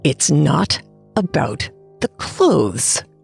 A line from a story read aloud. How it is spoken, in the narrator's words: I said through gritted teeth